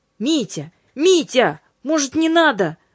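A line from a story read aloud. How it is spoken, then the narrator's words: Alarmed angel's shout. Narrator (Russian): закричал тревожно ангел Димитриус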